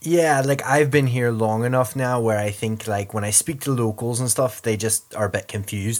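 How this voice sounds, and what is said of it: Irish-tinged English accent. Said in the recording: “sound very Irish to me now, by the way. Your accent is very much has homogenized.”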